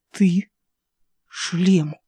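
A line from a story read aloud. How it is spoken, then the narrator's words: Whisper. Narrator (Russian): прошептал Ас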